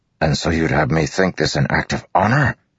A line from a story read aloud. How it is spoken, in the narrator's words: Dalinar growled